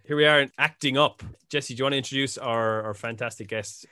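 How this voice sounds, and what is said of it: Usual voice. Nothing is said of it.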